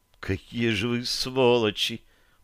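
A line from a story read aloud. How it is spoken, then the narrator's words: Whisper from behind. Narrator (Russian): прошептала за моей спиной Таша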